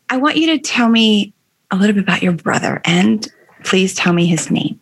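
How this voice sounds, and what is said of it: Choked-up, emotional voice. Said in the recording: “I get a little choked up here”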